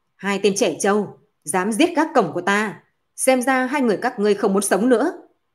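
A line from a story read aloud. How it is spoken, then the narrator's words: Middle-aged demon's loud shout. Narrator (Vietnamese): một yêu quái nhìn tuổi tác khoảng 50 tuổi lớn tiếng quát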